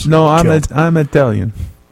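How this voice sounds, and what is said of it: Exaggerated put-on Italian accent. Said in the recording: “like Chico Marx trying to do an Italian accent”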